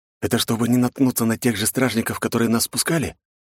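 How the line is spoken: Whispered question. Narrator (Russian): Шепотом осведомился

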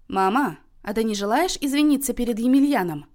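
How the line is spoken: Stern question. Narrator (Russian): строго спросила Тоня

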